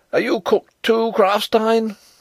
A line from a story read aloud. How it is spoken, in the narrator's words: cried